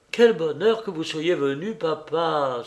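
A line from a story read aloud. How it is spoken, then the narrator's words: Exclaiming. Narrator (French): s'écria-t-il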